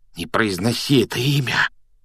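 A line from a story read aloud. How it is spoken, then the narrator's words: Frightened whisper. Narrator (Russian): испуганным шепотом попросил Рон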